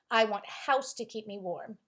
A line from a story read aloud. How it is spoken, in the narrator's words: he said